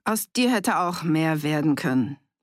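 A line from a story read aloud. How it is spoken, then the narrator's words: Sighing. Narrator (German): seufzte Wienert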